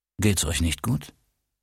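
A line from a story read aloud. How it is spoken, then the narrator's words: Calm stoic voice. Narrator (German): ruhig und gelassen sagte mit stoischer Ruhe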